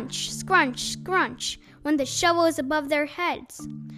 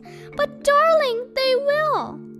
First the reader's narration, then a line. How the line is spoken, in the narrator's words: sobbed